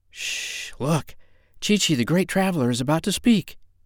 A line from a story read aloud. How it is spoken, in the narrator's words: all the others whispered